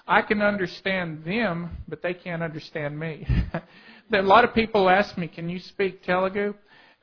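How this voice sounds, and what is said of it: Southern South Texas accent. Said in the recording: “my southern South Texas accent”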